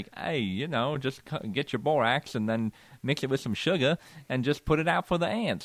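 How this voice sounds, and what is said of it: Twangy Australian accent imitation. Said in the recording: “an Australian man ... He might be in New Zealand ... It was a little twangy, but that's good. It's not bad.”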